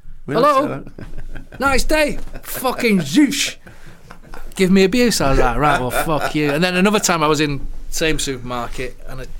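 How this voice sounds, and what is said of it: Mancunian (Manchester) accent. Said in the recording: “You never heard a Mancunian accent before ... someone hears your Manchester accent”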